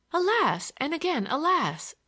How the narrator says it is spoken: exclaimed Olivia

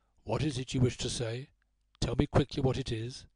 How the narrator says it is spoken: he said in a low, distinct voice

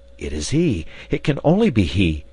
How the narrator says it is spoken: cried

